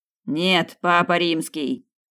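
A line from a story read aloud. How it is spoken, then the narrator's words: Shouting. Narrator (Russian): закричал Снейдер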